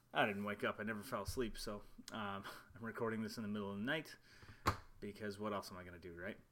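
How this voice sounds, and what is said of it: Quiet, soft late-night voice. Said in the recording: “my voice is kind of quiet, it is about midnight”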